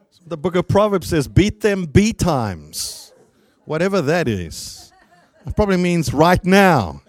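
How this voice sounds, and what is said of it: Speaker's noticeable accent. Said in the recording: “I understand I have an accent”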